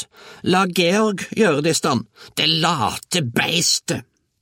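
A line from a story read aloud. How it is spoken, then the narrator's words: Roaring. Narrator (Norwegian): brølte bestemor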